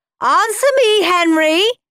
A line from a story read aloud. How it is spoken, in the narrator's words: shouted Mum